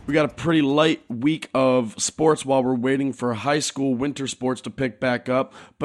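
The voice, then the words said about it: Hoarse, congested voice. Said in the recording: “Pardon my voice. I'm coming off of a cold.”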